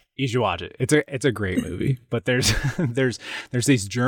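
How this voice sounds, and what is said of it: Usual voice. Nothing is said of it.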